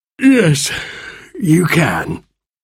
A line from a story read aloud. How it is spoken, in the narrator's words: he said sleepily